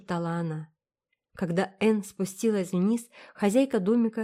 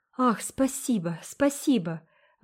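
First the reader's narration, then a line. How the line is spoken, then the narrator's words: Delighted exclamation. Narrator (Russian): воскликнула Энн с восторгом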